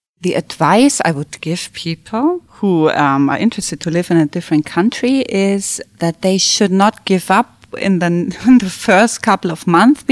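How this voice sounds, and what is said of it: German accent. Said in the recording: “You still hear my accent ... I discovered how German I really am”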